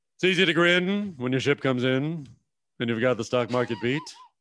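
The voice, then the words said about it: Imitates another person's voice. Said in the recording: “your best impression. Give us your best impression ... the Ted Ted Knight”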